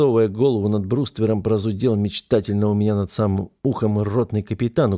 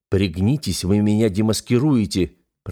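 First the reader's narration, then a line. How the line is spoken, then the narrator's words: Hissing. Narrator (Russian): прошипел я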